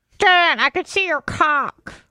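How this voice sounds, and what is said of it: Imitates another person's voice. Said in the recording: “Bubba impersonation”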